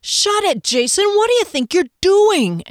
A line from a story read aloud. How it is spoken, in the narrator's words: Andy yelled